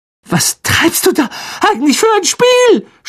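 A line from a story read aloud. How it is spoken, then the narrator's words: Shouting. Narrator (German): schrie er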